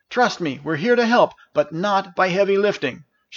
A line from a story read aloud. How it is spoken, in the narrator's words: shouted Janice as they trotted past